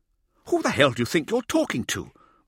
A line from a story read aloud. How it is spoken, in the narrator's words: Mirza exclaimed